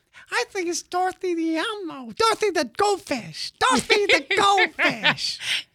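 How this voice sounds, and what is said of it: Elmo character voice, sounds old. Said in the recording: “Say the answer in Elmo style ... It was all right. I think that's Elmo like in his 80s.”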